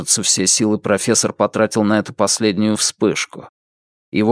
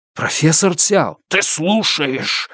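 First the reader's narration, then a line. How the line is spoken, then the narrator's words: Loud bark. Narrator (Russian): рявкнул тот во весь голос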